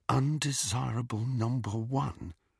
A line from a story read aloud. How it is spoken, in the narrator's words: Harry muttered under his breath